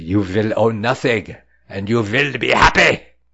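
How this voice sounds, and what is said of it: Put-on German accent. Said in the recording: “my German ancestry coming out with that accent”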